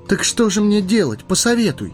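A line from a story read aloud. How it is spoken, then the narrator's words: Pleading. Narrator (Russian): взмолился Фродо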